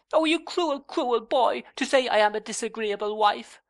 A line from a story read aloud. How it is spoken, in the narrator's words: cried Dora